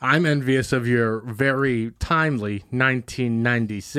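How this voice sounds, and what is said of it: Usual voice. Nothing is said of it.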